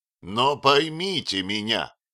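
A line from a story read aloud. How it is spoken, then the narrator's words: Sudden, almost angry shout. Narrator (Russian): крикнул Отто вдруг почти злобно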